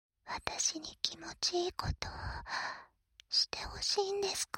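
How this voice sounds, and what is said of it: Seductive whisper. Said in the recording (Japanese): “ささやけば ... 耳元で誘惑”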